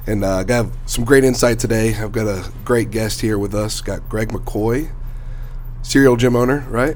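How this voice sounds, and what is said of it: Strained, worn-out voice. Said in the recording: “my voice is a little shot today ... it sounds like you've been working those vocal cords a little bit too much”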